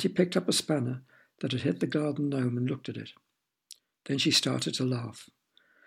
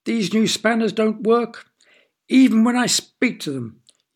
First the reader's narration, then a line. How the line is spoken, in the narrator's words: yelled Uncle